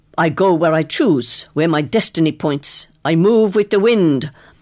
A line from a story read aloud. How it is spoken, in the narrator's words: saying coldly